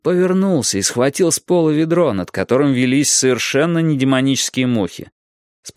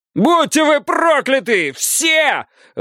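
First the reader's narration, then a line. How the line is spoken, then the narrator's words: Shouted out. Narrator (Russian): выкрикнул заключенный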